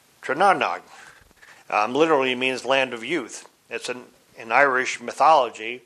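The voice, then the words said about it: Put-on Irish accent. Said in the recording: “I'm trying to do this in my best Irish accent here.”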